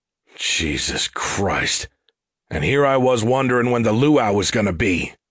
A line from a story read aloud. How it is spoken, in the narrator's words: Gus barked in contempt